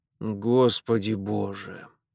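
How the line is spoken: Low-voiced mutter. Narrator (Russian): в полголоса буркнул хозяин

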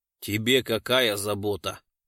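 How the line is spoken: Rough question. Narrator (Russian): грубо спросил лесник

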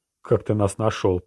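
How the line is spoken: Growled. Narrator (Russian): прорычал владетель

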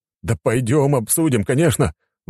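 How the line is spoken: Exclamation. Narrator (Russian): воскликнул цесаревич

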